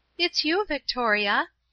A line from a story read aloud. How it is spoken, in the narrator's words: Paula cried